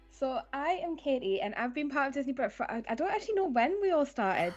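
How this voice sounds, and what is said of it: Newcastle English accent. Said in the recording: “I'm from Newcastle, as you might be able to tell from my accent”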